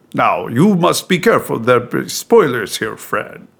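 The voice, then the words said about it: Poor accented cartoon character impression. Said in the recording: “That is the worst Hondo impression... it's turning into Ricardo Montalban, apparently... it turned into Desi Arnaz. What is happening with this impression?”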